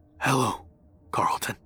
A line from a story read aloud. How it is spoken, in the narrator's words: quietly whispered